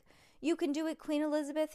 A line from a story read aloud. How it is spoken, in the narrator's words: yelled Jessica